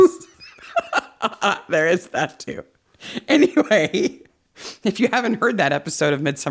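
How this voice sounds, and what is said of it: Usual voice. Nothing is said of it.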